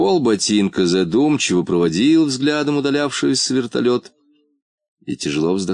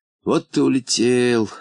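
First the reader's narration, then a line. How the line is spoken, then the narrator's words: Gloomy. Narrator (Russian): сказал он мрачно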